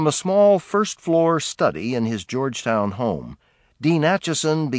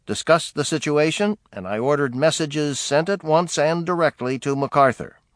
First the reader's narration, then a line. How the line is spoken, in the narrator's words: Truman recorded dryly